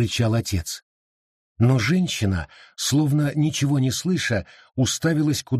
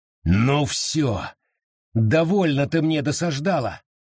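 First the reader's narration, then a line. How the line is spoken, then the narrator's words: Growled. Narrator (Russian): рыкнул отец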